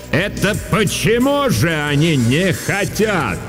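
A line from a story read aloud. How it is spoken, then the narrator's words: Sudden booming voice. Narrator (Russian): вдруг прогремел на весь класс голос Дурцевой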